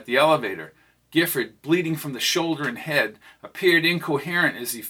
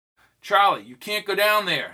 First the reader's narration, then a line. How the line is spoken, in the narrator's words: shouted Jamal